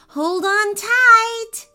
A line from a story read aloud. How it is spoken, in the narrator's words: Ava shouted